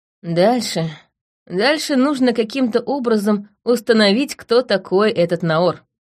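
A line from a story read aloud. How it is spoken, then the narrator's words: Plain. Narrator (Russian): сказала я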